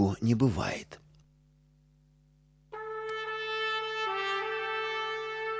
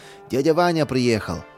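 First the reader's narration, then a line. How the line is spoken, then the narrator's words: Joyful. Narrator (Russian): обрадовался он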